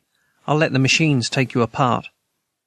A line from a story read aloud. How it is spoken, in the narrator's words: Rocket Boy said calmly